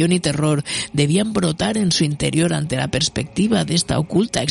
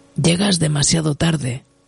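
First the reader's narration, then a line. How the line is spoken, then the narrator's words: Curt, sharp tone. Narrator (Spanish): dijo en tono cortante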